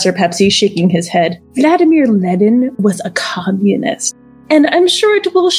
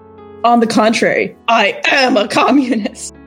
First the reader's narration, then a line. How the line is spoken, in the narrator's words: I yelled